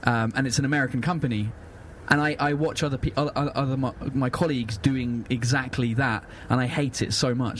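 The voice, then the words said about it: British English accent. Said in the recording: “You're British. I love your accent. ... Because I'm English”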